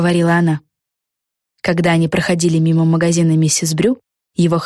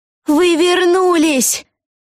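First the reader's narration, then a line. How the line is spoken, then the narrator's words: Shouted. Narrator (Russian): закричала миссис Брю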